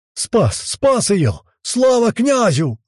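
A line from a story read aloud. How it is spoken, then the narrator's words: Loud jubilant roar. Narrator (Russian): заорал рысь на всю двину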